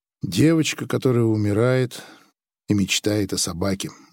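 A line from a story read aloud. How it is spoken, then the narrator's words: Sigh. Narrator (Russian): вздохнул Грик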